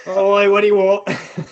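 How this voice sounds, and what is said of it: Put-on Australian accent. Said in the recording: “I could do an Australian accent.”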